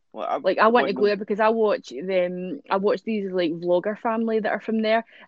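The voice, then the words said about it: Scottish accent. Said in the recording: “I love your accent ... I just love the accent. I love listening to Scottish people talk.”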